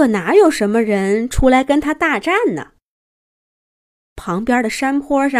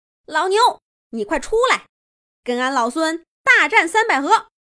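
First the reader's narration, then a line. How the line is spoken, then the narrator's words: Furious shouting. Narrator (Chinese): 孙悟空气炸了，他大喊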